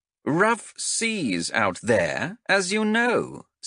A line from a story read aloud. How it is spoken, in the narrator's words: said Xenthe